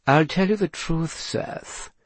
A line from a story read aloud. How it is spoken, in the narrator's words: purred